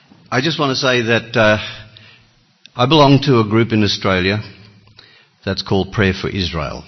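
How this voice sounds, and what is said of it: Australian accent. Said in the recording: “this funny accent is Australian”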